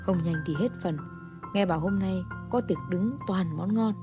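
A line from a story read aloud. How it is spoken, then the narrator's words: Hurried muttering. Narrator (Vietnamese): Nhà phê bình vội vội vàng vàng lẩm bẩm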